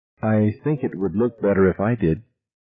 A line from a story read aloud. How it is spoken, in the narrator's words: said timidly